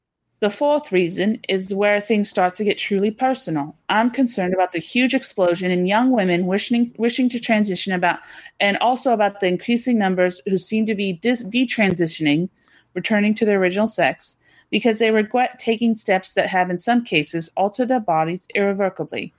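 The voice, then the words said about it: Put-on posh British accent. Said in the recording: “What's this accent you're doing? ... It's perfect. ... I feel like I'm in Oxford.”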